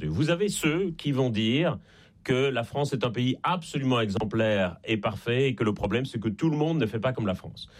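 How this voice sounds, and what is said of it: Slight Belgian French accent. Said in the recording (French): “ça s'entend un peu d'ailleurs à mon accent. Je suis né en Belgique”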